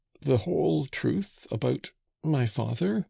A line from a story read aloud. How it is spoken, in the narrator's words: asked in a strangled voice